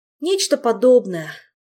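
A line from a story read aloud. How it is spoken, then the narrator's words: Glum reluctant agreement. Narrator (Russian): уныло согласился Мафей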